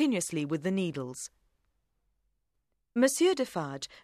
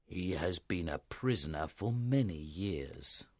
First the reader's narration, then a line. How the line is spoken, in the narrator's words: Monsieur Defarge replied grimly